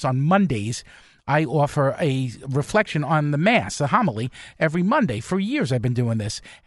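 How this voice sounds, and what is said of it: New York accent. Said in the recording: “we love your New York accent”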